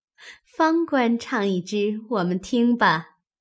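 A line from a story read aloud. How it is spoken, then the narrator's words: Laughing. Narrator (Chinese): 宝钗……笑说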